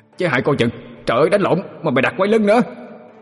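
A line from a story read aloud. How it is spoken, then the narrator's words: Panicked shout. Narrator (Vietnamese): quảng hồn la lên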